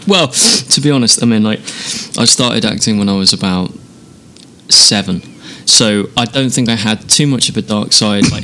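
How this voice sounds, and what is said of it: A distinct, charming accent. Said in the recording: “When you swear, it's in that accent, therefore it's charming.”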